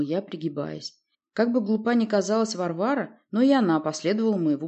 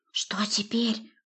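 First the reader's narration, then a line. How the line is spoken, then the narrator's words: Whisper. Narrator (Russian): прошептала она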